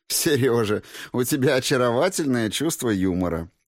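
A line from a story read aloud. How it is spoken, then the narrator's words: Laughing. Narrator (Russian): рассмеялась герцогиня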